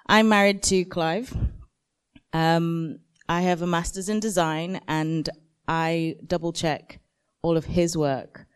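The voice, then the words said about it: Hoarse, failing voice. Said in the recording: “Excuse my voice, I'm losing my voice.”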